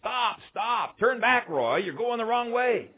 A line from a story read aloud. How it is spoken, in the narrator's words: shouting